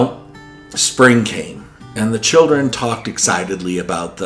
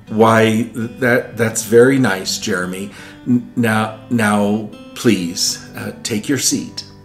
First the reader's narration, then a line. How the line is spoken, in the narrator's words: She stammered